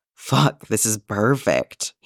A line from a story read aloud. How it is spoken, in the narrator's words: he moans